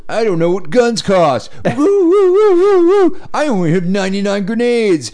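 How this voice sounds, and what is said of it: Imitates another person's voice, shouting woo. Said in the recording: “Who is he, Ric Flair? ... His impression is woo! Woo! Woo!”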